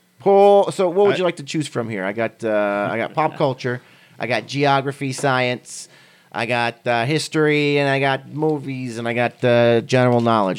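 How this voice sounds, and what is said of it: Put-on accent. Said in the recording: “I don't know where the accent's coming from, but it's there.”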